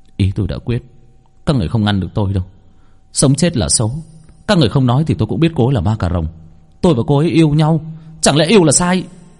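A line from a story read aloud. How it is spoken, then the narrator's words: Trembling young man, resolved. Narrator (Vietnamese): Người thanh niên run rẩy hút một hơi thuốc, suy nghĩ một hồi lâu rồi nói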